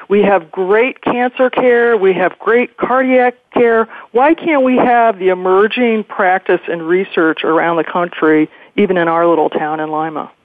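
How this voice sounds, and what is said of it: Emphatic advocacy-style speaking voice. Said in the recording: “in an advocacy voice,”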